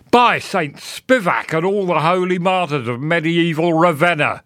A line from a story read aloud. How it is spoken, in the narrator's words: he cried